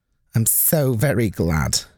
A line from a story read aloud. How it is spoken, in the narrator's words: said